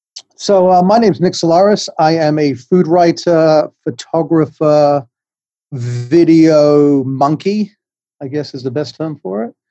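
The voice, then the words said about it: English accent. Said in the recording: “I'm from England. You can tell I have a funny accent”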